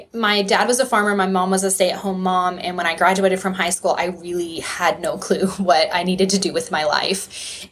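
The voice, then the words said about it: Texas accent. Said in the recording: “if you hear that Texas accent, I apologize. I've worked hard to get rid of it”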